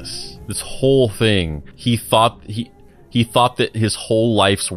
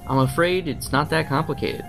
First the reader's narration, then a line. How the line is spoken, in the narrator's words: said